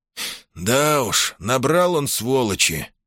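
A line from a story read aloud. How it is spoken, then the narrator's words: Sigh. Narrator (Russian): вздохнул Похарада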